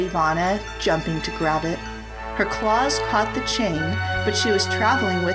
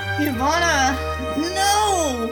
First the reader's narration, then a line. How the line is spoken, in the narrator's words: Rachel groaned through the pain